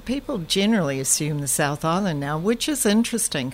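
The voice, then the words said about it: Mixed Canadian and New Zealand accent. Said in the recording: “my mix of, you know, Canadian, New Zealand ... Unplaceable accent.”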